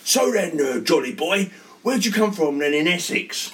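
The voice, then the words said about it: Put-on East End London accent. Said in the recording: “he's very sort of East Ender sort of accent”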